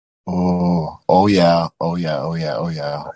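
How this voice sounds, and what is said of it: Exaggerated Minnesota accent moaning. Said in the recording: “a very Minnesota accent orgasm”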